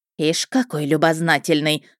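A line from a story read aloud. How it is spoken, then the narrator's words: Hissing. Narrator (Russian): снова зашипела Лидочка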